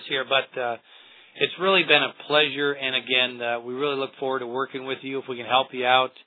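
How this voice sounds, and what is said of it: Hoarse, fading voice. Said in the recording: “my voice. My voice. ... it's gone. ... My voice is getting a little hoarse”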